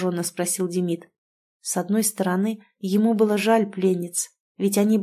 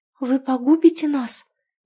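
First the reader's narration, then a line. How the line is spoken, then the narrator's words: Trembling voice. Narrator (Russian): дрожащим голосом спросила одна из стоящих на коленях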